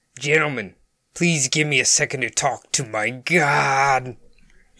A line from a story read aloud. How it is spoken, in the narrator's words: paused dramatically and said